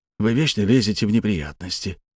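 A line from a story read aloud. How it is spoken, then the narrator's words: Quiet. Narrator (Russian): тихо произнес Капелюш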